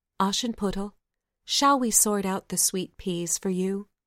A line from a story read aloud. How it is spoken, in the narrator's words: the doves returned and said kindly